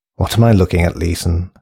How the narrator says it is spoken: sighed wearily

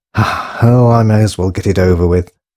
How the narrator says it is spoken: she sighed to herself

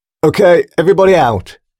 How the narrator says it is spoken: shouted the soldier

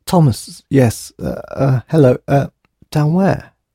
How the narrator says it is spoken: he stuttered

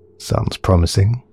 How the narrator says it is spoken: muttered Alex

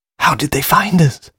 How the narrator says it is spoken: whispered Drago, panic-stricken

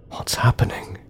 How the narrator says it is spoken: he whispered

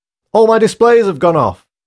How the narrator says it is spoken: shouted Morgan, a senior technician from across the room

